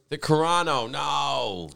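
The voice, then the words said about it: Whiny voice. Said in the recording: “I like to use my whiny voice.”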